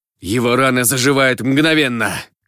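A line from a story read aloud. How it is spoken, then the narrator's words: Shout mid-fight. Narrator (Russian): крикнул Шиол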